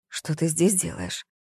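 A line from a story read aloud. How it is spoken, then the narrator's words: Whispered. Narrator (Russian): прошептала Зоя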